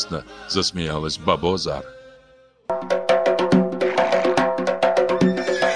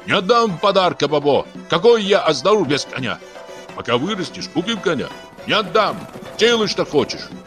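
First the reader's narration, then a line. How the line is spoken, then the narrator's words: Choked shout. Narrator (Russian): Георгий сдавленно закричал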